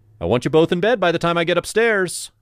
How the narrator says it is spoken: I shouted

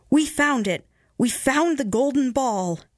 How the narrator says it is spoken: the rooster and all his tribe cried out

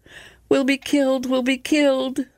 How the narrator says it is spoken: wailed the sisters

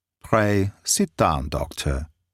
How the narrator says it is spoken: said he

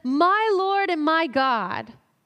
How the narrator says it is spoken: Thomas exclaims them

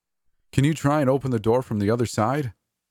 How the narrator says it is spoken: Darius called out to me

